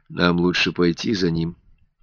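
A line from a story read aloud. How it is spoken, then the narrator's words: Quiet. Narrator (Russian): тихо сказал Альберт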